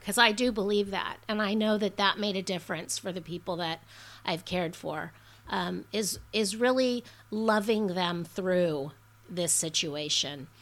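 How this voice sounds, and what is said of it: Teary, emotional voice. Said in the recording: “I'm a little teary”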